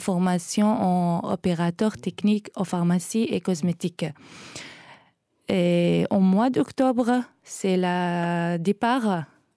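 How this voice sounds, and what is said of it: Charming Iraqi accent in French. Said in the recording (French): “Votre charmant accent vient d'où ? ... Je suis irakienne.”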